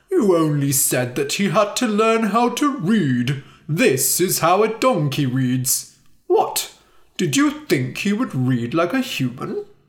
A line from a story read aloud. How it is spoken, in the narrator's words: Timur laughed